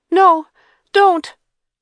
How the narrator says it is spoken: she cried out

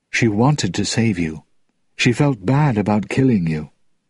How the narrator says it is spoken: In a low voice, he added

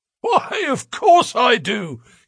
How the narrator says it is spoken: wheezed

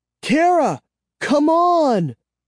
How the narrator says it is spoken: screamed

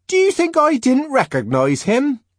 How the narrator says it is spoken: Linda asked indignantly

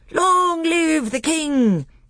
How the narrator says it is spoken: they all cried

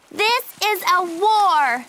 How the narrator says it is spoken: She shouted

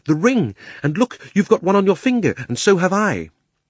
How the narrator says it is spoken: cried Diggory

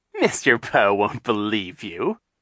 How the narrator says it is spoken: Captain Sham said, chuckling

